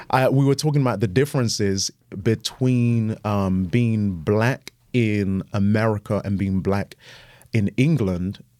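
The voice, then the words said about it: British accent. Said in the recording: “you have a British accent”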